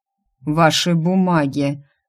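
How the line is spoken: Dazed mage grumbling. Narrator (Russian): буркнул ошалевший маг

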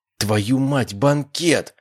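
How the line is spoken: Exclaiming. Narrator (Russian): воскликнул я

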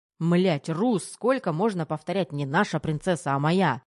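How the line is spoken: Angry barking. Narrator (Russian): Зло рявкнул Терехов

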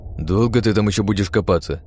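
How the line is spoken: Grumbling. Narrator (Russian): Не удержавшись, пробурчал Сэм

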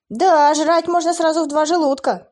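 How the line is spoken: Shouting mid-fight. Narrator (Russian): крикнул Эйден, отбивающий атаки двух скелетов

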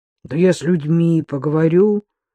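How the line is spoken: Low booming voice. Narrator (Russian): прогудел Бабкин

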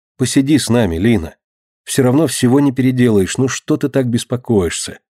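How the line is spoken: Plain. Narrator (Russian): говорит Марина

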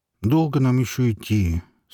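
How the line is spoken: Plain. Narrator (Russian): спросил Горемыка

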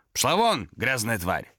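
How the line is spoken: Barked. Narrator (Russian): рявкнул он на нее

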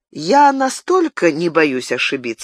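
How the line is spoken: Calm objection. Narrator (Russian): спокойно возразил Габриэль

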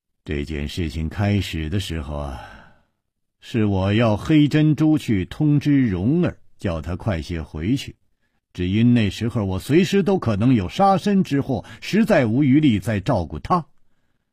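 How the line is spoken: Sighing. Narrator (Chinese): 楚留香叹了一口气

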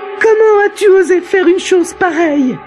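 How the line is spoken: Exclaimed. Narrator (French): s'écria-t-elle en voyant Tariq fouiller son coffre

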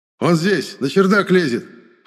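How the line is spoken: Shout. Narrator (Russian): прокричал самый проворный из служителей закона

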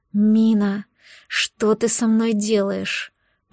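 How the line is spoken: Moaning. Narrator (Russian): простонал Нэшвилл

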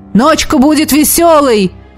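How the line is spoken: Shout into ear. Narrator (Russian): крикнул мне в ухо Элогим

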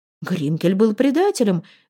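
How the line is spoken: Indignant exclamation. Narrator (Russian): в негодовании воскликнул Эндель

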